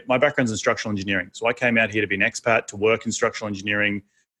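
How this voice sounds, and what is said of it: Australian accent. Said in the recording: “as you can tell from my accent, I'm not originally from Austin ... I'm originally from Australia”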